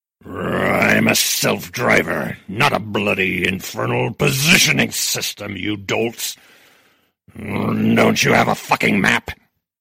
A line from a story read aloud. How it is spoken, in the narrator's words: the car growled